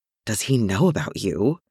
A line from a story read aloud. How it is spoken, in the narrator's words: Maddie whispered